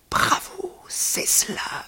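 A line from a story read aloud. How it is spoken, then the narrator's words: Murmured. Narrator (French): murmura-t-il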